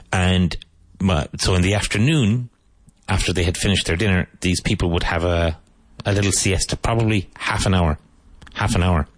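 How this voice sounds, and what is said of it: Irish Cork accent. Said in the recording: “I like your accent. ... I'm from Ireland. ... I'm from Cork, which is on the south coast.”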